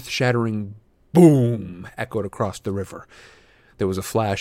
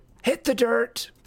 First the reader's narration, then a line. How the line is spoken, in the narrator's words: She yelled